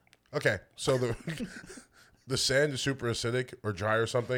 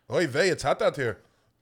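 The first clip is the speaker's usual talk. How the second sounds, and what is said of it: Put-on Jewish accent. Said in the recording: “a Jewish accent? ... That was pretty good, right?”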